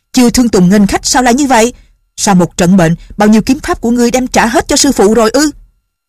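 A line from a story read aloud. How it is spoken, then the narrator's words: Woman crying out. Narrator (Vietnamese): bà la lên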